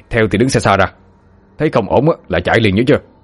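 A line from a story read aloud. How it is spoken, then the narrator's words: Hesitant, then stern. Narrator (Vietnamese): Chú ba lưỡng lự một lúc rồi gằn giọng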